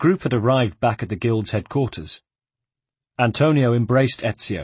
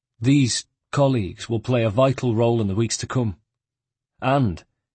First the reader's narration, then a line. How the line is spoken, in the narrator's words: his tone became solemn